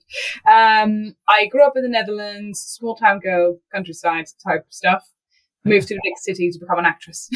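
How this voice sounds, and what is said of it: Dutch accent. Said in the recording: “I grew up in the Netherlands. That's the accent that people are hearing if they're thinking, what is that accent?”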